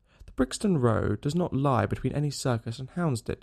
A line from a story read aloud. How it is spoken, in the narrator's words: said Sherlock Holmes sharply